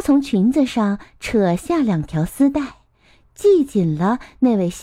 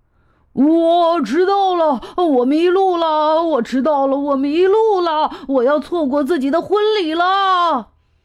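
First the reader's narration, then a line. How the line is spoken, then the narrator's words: Breathless loud shouting. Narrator (Chinese): 一位先生从马路上跑过来，大声喊着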